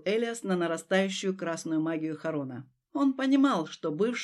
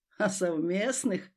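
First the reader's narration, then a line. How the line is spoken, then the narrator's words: Laughing. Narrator (Russian): рассмеялся Кроу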